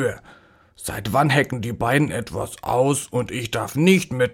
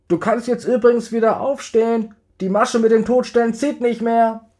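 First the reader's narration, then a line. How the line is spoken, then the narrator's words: Calling from inside. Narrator (German): rief Marlene kurz darauf noch von drinnen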